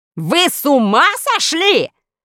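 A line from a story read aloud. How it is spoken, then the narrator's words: Furious shout. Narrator (Russian): заорал министр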